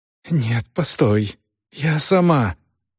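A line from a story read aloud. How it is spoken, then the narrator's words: Hoarse exclamation. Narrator (Russian): хрипло воскликнула она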